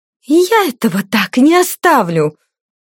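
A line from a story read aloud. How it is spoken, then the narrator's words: Angry hiss. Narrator (Russian): прошипела ушибленная злюка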